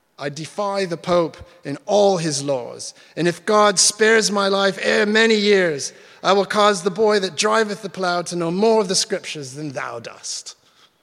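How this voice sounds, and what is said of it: Put-on English accent. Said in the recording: “You have to say that with an English accent.”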